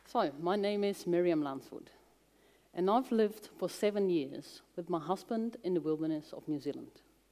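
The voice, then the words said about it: Dutch accent in English. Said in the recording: “she's from Holland because she said people will say, Where is that strange accent from?”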